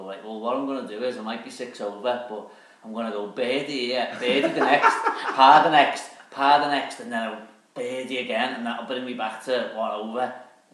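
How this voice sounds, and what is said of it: Impression of Mark. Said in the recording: “Such a good impression of Mark”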